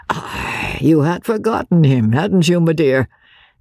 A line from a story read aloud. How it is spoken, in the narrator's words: said Sir Percy merrily